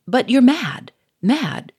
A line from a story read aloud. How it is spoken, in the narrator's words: cried Gouchard